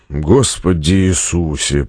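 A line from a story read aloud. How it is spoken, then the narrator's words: Groaning. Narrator (Russian): простонал Стратмор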